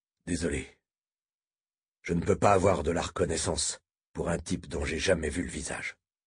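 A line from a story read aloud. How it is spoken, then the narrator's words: Muffled low voice. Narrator (French): lâcha-t-il d'une voix sourde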